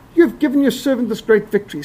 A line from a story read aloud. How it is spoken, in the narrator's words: he's thirsty, and he cries out to the Lord